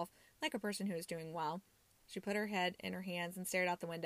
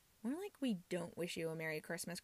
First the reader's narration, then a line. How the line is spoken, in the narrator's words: Chrissy muttered